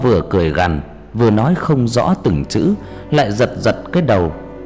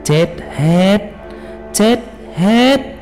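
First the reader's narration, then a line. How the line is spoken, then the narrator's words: Harsh gritted voice. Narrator (Vietnamese): Thầy, gằn giọng nói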